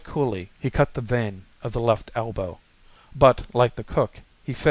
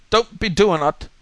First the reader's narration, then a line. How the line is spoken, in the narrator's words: he cried